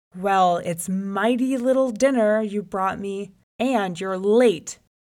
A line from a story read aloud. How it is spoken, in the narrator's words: The lion roared out